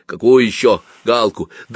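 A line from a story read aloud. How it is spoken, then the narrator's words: Smiling, softened angry man. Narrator (Russian): сердитый человек улыбнулся сам и спросил уже не очень сердито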